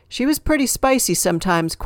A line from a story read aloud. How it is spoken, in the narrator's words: Kwan said with a laugh